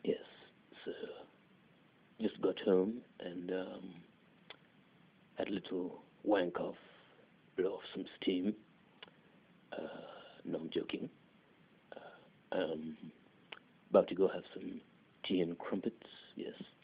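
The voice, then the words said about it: Put-on British accent. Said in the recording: “that was my British accent”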